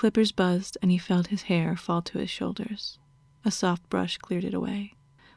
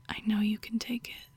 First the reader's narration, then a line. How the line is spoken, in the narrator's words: she whispered